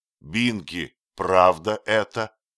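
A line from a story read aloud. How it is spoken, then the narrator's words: Stern. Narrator (Russian): сказал Торпингоу строго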